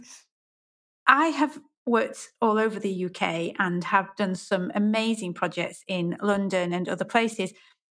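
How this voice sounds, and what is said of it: Northern English accent. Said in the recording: “I'm from the north and I have a northern accent”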